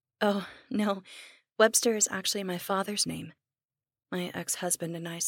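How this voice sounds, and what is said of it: Usual voice. Nothing is said of it.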